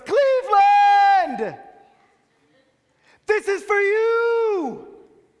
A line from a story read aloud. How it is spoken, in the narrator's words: he screams to the cameras